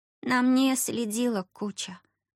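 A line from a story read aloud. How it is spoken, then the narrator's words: Gloomy. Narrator (Russian): мрачно сообщила она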